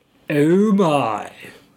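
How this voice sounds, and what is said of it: Attempted George Takei impression. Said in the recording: “voiced here by George Takei ... I am legally obliged to perform the following attempted impersonation.”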